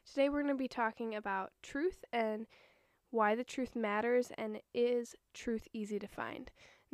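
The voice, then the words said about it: Hoarse voice. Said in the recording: “I am sick ... my voice is kind of hoarse, so if my voice sounds weird”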